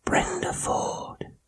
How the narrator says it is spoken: the whisper came back

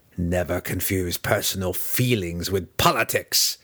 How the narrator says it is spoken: the tiny but obviously strong matron growled, her tone carrying the unmistakable weight of an open threat

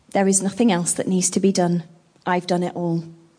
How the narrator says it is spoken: he quietly paused, looked at his Father and replied

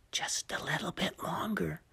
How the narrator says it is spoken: the boy whispered again

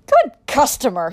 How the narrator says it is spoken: shouted

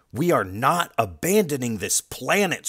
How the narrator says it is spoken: Superman shouts

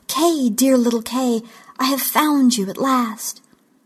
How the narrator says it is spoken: she exclaimed

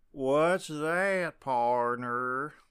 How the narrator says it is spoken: Larry said in an exaggerated drawl

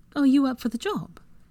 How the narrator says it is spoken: She ribbed him playfully

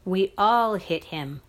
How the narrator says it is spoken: I said hotly

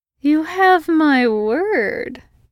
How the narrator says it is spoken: his brother purred

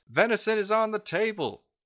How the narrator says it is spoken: a pretty gaunt-looking fella with a bad shave hollers out

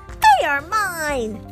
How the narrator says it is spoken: the second one yelled back

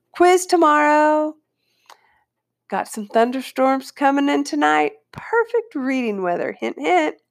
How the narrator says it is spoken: Miss Soper, my language arts teacher, hollered

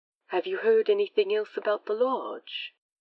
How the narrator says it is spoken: Crowley sighed

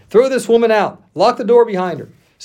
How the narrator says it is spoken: He shouted and demanded

